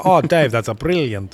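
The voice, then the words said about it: Bad put-on Italian accent. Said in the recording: “That's a really bad Italian accent”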